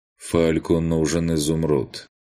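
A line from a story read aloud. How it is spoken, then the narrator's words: Dry colorless voice. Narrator (Russian): сухим бесцветным голосом пояснил маг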